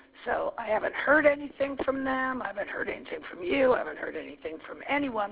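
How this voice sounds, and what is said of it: Hoarse voice. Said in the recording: “excuse my hoarse voice”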